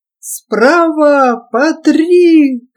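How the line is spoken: Hoarse shout. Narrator (Russian): кричал осипший голос Харунжева

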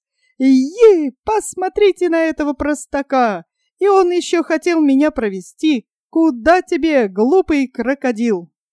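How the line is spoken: Loud laughing hare. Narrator (Russian): Расхохотался заяц

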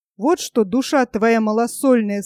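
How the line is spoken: Quiet. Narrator (Russian): сказал я тихо

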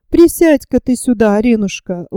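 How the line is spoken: Affectionate. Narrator (Russian): ласково говорит ей Елизавета

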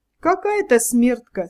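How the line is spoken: Laughing speech. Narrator (Russian): смеясь, промолвил Волчий Хвост

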